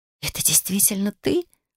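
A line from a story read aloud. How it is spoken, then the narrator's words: Tearful whisper. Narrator (Russian): прошептала, чувствуя, как глаза наполнились слезами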